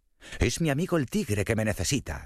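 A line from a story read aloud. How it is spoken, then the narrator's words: Shouted. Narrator (Spanish): gritó el conejo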